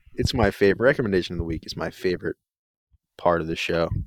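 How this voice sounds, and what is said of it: Sarcastic tone. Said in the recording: “I know you're being sarcastic”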